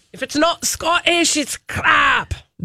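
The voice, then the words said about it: Put-on comic Scottish accent. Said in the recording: “A fat bastard Scottish accent. ... From the Austin Powers movie.”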